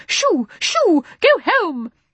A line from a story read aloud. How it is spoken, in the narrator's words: she cried